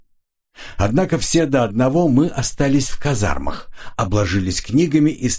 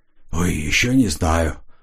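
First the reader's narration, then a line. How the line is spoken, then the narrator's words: Whisper. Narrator (Russian): прошептал он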